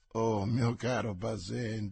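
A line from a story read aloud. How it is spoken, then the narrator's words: Laughing officer. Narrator (Italian): disse ridendo l'ufficiale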